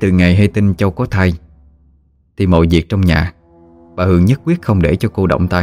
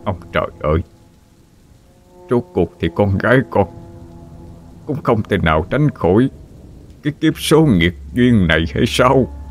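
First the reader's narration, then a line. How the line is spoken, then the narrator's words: Anguished choked sobbing. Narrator (Vietnamese): Ông ngã quỵ xuống nền nhà, hai tay run run kết vào nhau, rồi đau đớn khóc nghẹn mà nói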